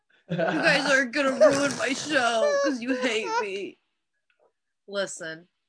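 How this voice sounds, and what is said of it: Imitates another person's voice. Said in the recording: “That's my impression of you. ... It was a good impression.”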